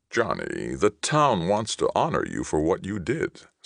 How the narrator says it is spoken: Stillman said soothingly, as if afraid Johnny was becoming angry

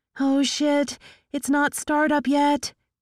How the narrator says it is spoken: Tinker cried

